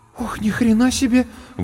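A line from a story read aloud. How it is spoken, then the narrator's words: Breathless exclamation. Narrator (Russian): выдохнула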